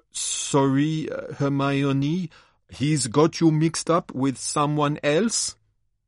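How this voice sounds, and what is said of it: Bad put-on accent. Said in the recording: “with a bad accent”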